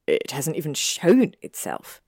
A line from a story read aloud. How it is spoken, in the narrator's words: Malfoy asked with a sneer